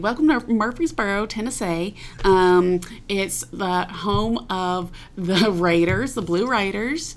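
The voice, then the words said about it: Put-on Southern US accent. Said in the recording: “Can you lock into a Southern accent? Can you do like a Murfreesboro, Tennessee?”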